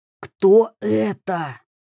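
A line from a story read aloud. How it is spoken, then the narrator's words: Hissed. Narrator (Russian): прошипел Мика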